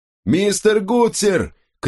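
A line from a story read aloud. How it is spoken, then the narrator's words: Captain shouting. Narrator (Russian): крикнул капитан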